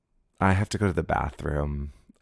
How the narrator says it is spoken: I sighed

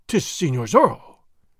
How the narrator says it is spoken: he exclaimed

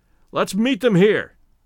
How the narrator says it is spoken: shouted Stoddard

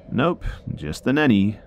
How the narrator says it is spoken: laughed nervously to this and didn't know what to say back, so I said

